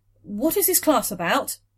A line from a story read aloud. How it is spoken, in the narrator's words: she blurted